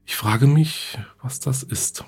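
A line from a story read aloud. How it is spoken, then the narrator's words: Murmuring. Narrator (German): murmelte Susan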